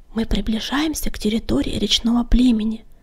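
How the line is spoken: Whisper. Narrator (Russian): шепнул Клубок

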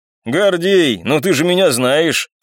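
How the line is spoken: Man's sly chuckle. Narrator (Russian): хитро хохотнул мужчина

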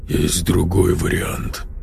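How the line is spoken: Grim. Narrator (Russian): мрачно произнес боец

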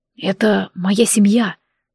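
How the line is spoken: Trembling breathed voice. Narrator (Russian): дрогнувшим голосом выдохнул Змеулан

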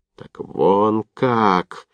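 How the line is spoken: Suddenly fading, sinking voice. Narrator (Russian): опадающим голосом вдруг произнес Овчинников

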